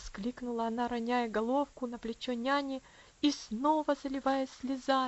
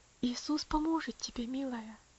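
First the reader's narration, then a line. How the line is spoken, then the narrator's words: Tender. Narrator (Russian): нежно ответила тетушка Хлоя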